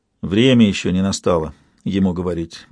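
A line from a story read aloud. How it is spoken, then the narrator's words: Grim declaration. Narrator (Russian): мрачно заявила она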